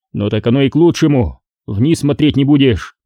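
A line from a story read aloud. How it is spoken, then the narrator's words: Wry grunt. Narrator (Russian): хмыкнул Хачариди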